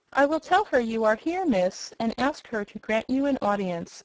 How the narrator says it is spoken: said the maid

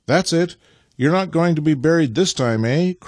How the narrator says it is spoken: cried Nikita encouragingly

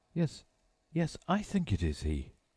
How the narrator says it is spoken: The judge breathed once more

